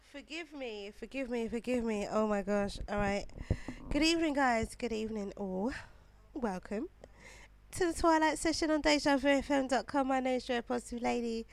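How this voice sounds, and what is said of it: Voice sounds ill. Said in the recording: “I sound so ill.”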